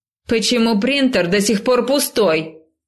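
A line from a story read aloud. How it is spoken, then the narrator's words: Loud shout. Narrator (Russian): крикнула на весь этаж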